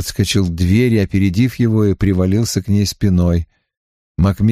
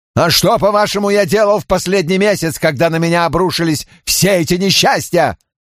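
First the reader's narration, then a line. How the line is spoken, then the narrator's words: Shouted. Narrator (Russian): Макмиллан выкрикнул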